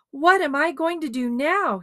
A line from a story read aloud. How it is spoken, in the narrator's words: wailed